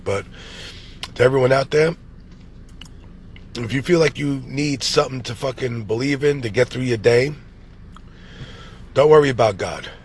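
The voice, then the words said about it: Nasal, sick-sounding voice. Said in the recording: “sorry if I sound a little nasally, I'm sick as a motherfucker”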